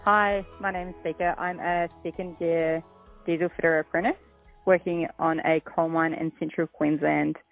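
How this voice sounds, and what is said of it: New Zealand accent. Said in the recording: “am I detecting a bit of an accent there? ... I'm originally from New Zealand”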